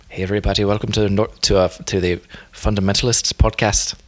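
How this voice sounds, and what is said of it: Poor attempt at Northern Irish accent. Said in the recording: “Can you do it in a Northern Irish accent? ... No, that's not good.”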